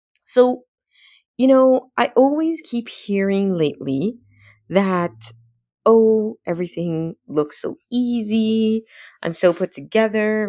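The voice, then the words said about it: Congested, less clear voice. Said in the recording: “apologize for my voice. I don't know what's going on. My sinuses have been acting up. So, yeah, I don't sound as clear”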